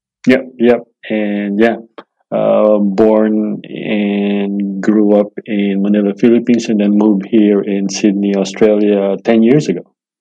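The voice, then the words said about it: Filipino accent. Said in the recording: “you've kept that fantastic accent ... the Philippines”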